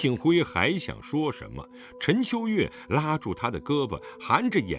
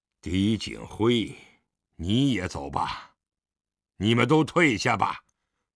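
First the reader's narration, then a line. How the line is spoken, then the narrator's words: Weary, low voice. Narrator (Chinese): 狄仁杰长长地吁了一口气，低声道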